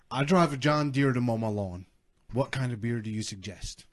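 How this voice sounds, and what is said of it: Put-on Southern accent. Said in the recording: “just got really Southern. ... Southern accent night”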